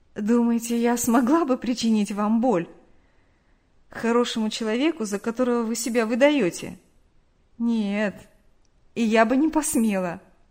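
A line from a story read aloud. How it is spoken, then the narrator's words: Said after laughing. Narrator (Russian): Они рассмеялись, и Нэнси сказала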